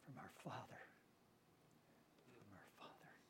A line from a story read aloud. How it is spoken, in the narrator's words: In awe, he just whispered